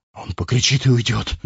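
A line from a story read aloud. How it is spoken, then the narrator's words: Trembling voice. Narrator (Russian): дрожащим голосом сказал Гаран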